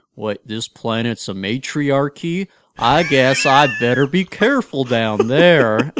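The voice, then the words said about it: Imitates a TV character's voice. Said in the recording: “my best Trip impersonation”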